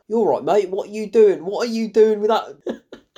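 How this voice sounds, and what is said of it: Put-on British accent. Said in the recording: “she just starts doing a completely different British accent”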